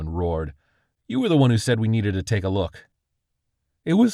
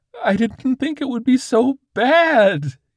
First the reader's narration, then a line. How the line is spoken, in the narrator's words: he wailed